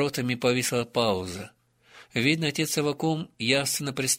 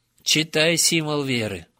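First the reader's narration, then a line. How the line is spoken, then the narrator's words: Understanding sigh, then firm. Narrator (Russian): с пониманием вздохнул, но тут же несгибаемо повторил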